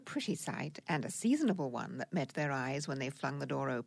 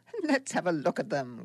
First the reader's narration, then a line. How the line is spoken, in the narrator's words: cried